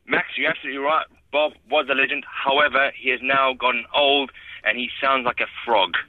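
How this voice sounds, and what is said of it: South African accent. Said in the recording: “are you talking weird or is it just me hearing you weird? ... it's just my South African accent. Confuses many people.”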